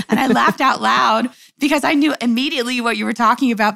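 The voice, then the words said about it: Slightly froggy, hoarse voice. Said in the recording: “my voice is a little froggy today. I actually lost my voice”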